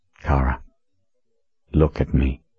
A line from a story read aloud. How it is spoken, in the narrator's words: he said in a soft voice